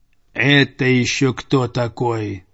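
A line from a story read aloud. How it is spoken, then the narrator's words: Grumbling. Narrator (Russian): проворчал Цезарь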